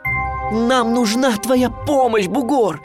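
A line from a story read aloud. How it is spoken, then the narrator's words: Nearly shouting. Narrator (Russian): почти кричал я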